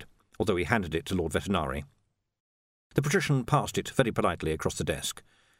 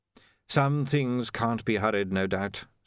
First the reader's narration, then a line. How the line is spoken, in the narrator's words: said Vetinari smoothly